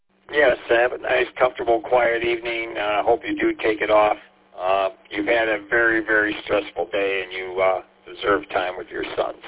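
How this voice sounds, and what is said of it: Raw, strained voice. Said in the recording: “apologize for my voice. Kind of raw. ... I lost my voice”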